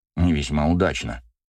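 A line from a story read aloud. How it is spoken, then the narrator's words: Father grumbling under breath. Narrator (Russian): буркнул папа себе под нос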